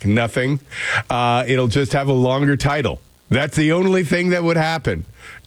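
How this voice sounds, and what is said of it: Slightly sick-sounding voice. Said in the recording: “Do I sound sick? A little bit.”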